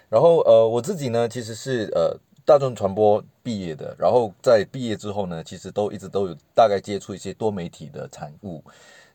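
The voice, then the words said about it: Malaysian Mandarin accent. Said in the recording (Chinese): “听我口音，可能大概就会听得出来，我不太是呃台湾人。...我是马来西亚人”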